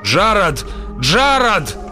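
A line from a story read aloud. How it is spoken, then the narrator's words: Desperate shouting. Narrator (Russian): закричал он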